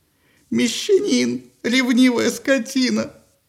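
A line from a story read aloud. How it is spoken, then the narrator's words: Tearful wailing. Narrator (Russian): сквозь слезы выла Афродита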